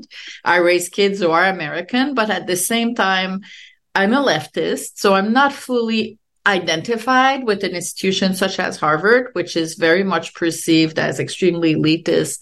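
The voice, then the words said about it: French Canadian accent. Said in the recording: “I'm French Canadian ... I have, obviously have an accent.”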